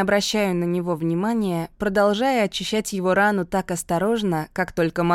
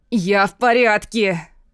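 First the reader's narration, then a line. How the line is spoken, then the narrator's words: Hoarse rasp. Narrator (Russian): хрипит Луис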